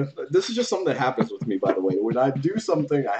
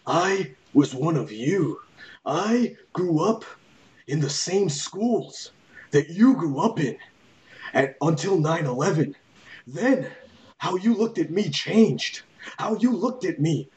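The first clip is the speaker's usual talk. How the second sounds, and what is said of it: Imitates another person's voice. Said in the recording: “I have to do an impression ... Go back and run some tape of Muhammad Hassan. You tell me if he sounds like that.”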